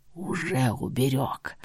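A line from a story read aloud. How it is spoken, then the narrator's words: Whisper. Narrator (Russian): Прошептал он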